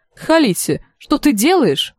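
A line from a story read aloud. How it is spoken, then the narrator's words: Exclaiming. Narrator (Russian): воскликнула Ири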